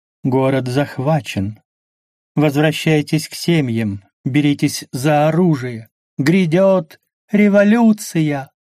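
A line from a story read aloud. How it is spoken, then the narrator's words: Languid voice. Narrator (Russian): томным голосом сказала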